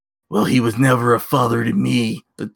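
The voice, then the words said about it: Imitates another person's voice. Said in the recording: “that was my Triple H impression.”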